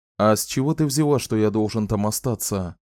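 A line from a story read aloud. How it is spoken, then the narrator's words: Plain. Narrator (Russian): спросил Ричард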